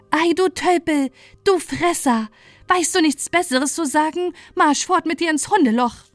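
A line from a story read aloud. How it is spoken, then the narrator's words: Furious shout. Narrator (German): Die schöne Prinzessin ward dunkelrot vor Zorn und rief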